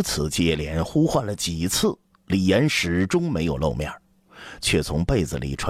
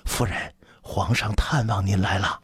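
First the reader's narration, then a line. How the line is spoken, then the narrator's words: Soft-spoken. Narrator (Chinese): 紫云忙轻声说道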